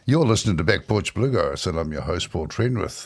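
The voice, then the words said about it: New Zealand English accent. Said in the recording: “an unusual accent at the start of it ... a New Zealand voice”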